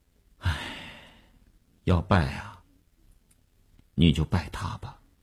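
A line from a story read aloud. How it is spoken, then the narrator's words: Resigned sigh. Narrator (Chinese): 那个钢琴师一声无奈的叹息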